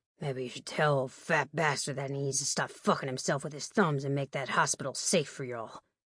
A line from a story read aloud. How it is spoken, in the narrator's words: my dad muttered